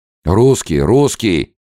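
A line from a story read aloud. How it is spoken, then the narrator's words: Crowd shouting all around. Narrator (Russian): закричали гелики со всех сторон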